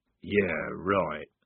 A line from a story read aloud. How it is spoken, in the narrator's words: mumbled Strappy